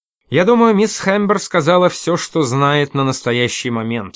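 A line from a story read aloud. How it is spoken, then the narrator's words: Plain. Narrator (Russian): ответил тот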